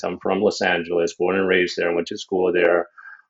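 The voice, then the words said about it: American accent. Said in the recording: “I'm from the States originally, as you can probably tell from my accent.”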